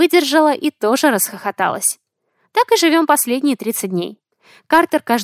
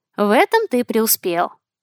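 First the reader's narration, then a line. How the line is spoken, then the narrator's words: Plain. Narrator (Russian): ответила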